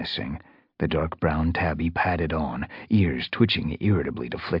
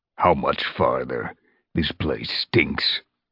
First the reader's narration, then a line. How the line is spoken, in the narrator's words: growled